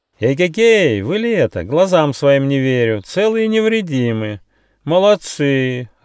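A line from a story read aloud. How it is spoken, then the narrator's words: Joyful shout. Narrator (Russian): радостно кричал ветер муссон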